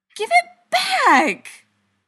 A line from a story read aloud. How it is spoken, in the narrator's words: The screech was loud enough to actually make both vampires flinch